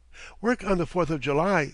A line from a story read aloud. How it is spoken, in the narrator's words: he exclaimed